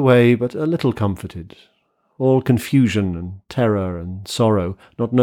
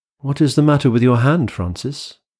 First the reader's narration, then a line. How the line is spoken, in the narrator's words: I said in a steady voice